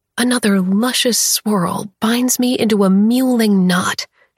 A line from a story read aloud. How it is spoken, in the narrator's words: his next words snarled